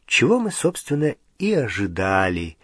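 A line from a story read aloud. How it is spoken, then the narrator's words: Sighing. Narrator (Russian): вздохнула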